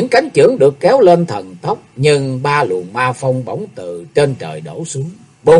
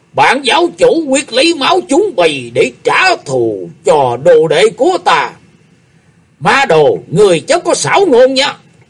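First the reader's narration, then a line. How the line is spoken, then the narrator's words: Thunderous deafening scream. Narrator (Vietnamese): từ dưới tủ lầu một tiếng thét như sấm nổ vang lên, chực xé màng tai của mọi người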